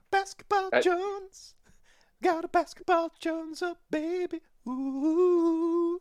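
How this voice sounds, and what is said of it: Singing in falsetto. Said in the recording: “That was my falsetto”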